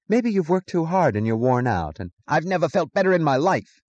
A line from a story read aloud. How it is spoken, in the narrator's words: he snapped